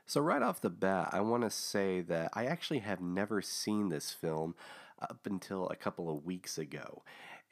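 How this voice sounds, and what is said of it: Slightly hoarse, groggy voice. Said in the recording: “my voice is a little off ... still a little bit groggy in the throat there”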